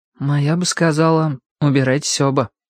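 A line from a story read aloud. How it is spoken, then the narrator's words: Said sadly. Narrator (Russian): грустно сказал Шурик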